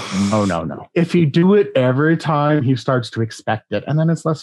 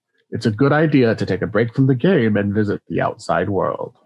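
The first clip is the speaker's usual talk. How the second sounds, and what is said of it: Character voice in a put-on accent. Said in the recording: “let me try that in his new accent.”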